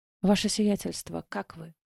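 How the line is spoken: Quiet female question. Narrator (Russian): тихо спросила лекарь

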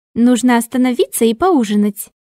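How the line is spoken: Cheerful suggestion. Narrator (Russian): весело предложила она

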